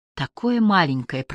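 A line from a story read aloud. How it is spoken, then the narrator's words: Whispering. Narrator (Russian): прошептал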